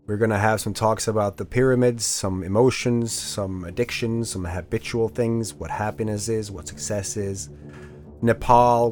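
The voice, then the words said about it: Voice sounding low. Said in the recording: “sorry for my voice being kind of low on this”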